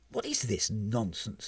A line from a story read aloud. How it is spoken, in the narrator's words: muttered Tanisan, appalled at the prospect of being somehow mixed up in all of this tedious do-goodery